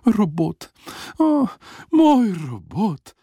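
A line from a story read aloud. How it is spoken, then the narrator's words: Restless sleepy sighing. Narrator (Slovenian): Matjažek je spal nemirno, vzdihoval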